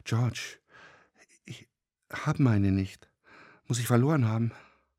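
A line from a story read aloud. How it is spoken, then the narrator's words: Said quietly. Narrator (German): Leise sagte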